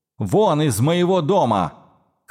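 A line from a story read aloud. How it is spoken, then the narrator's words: Furious shout. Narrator (Russian): крикнула, багровая от гнева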